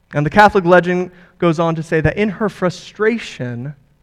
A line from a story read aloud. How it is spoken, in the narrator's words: she exclaimed and cried out